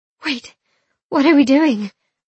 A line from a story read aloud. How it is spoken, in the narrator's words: I gasped